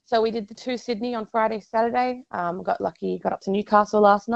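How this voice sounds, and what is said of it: Hoarse, worn-out voice. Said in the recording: “Can you hear my voice? ... I lose my voice.”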